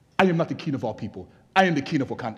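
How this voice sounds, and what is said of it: Nigerian accent. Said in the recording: “I said it in a better accent because I'm actually Nigerian”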